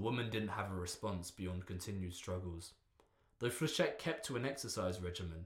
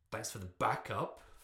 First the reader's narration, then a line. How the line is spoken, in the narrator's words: Flechette spat the words to Shadowstalker